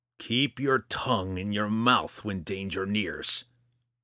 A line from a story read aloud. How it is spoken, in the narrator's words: Roddy growled